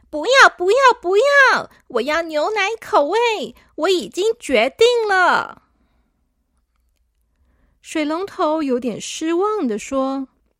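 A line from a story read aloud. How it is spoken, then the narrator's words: Loud shouting. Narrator (Chinese): 小朵大声的叫说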